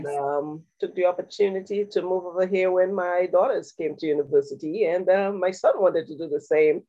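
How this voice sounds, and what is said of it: Caribbean St. Lucian accent. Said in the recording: “you can hear my accent... I'm originally from St. Lucia, a beautiful island in the Caribbean”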